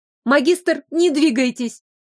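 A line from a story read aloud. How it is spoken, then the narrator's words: Pleading. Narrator (Russian): взмолилась я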